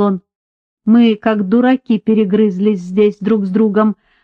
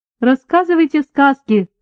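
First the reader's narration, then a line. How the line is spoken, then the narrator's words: Laughing. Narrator (Russian): рассмеялся Уильям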